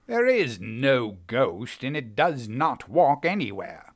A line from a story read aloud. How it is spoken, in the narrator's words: said irritably